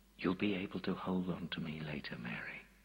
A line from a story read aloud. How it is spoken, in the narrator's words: Jesus said gently